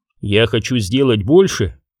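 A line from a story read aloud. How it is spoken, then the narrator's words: Plain. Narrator (Russian): сказал Парк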